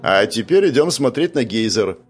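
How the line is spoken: Forced cheerfulness. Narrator (Russian): произнес настолько бодро, насколько смог, чтобы поднять настроение группе

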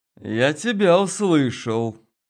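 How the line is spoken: Through gritted teeth. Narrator (Russian): проговорил сквозь зубы Гена

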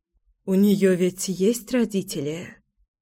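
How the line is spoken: Whispered question. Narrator (Russian): шепотом спросила Мила

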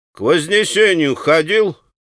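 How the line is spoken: Sudden stern insistent question. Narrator (Russian): Строго и настойчиво вдруг спросил он его

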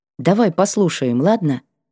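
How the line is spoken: Soft request. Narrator (Russian): попросила мягко

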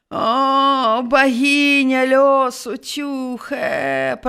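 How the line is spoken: Old shepherd groaning. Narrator (Belarusian): прастагнаў стары пастух

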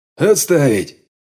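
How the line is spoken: Father barking. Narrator (Russian): рявкнул батя

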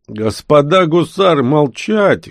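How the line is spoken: Smirking. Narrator (Russian): хмыкнул Котов

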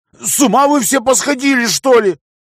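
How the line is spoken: Loud laughter. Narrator (Russian): Бог-император расхохотался

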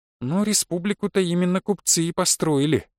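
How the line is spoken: Mumbled. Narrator (Russian): пробормотала Наташа

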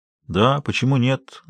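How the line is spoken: Tired voice. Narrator (Russian): голос Энди звучал устало

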